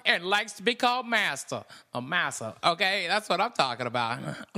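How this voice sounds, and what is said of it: Impression of comedian Earthquake. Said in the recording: “you got a good impression of him”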